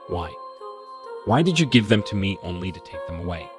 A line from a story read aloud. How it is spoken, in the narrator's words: I asked